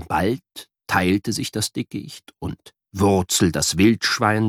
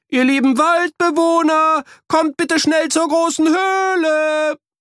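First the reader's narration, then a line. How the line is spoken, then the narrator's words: Shouting as loud as possible. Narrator (German): riefen, so laut sie konnten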